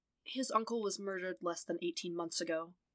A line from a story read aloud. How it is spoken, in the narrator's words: Matt murmured to the officers